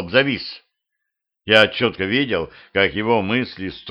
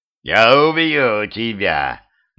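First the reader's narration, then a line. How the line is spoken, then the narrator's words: Growled. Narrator (Russian): наконец прорычал он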